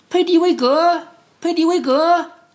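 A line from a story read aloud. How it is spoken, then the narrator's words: Loud call. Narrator (Chinese): 特鲁弗汉特高声叫道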